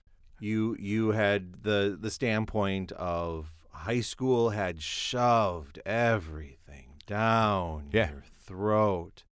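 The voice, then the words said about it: Impersonation of the co-host. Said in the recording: “I was doing an impersonation of you right there.”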